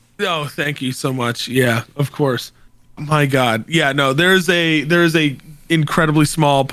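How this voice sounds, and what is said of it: Usual voice. Nothing is said of it.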